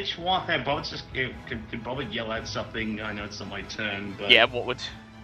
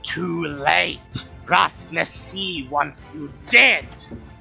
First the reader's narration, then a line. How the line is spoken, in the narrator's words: hisses, its forked tongue touching the air, and it says